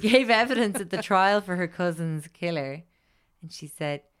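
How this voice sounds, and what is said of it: Usual voice. Nothing is said of it.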